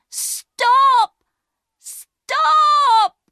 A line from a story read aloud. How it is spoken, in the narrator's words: shouting